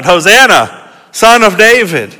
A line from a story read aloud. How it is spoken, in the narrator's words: they shouted